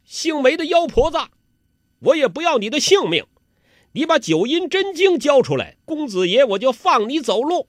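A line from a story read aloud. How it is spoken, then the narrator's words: Loud shout. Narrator (Chinese): 欧阳克高声的叫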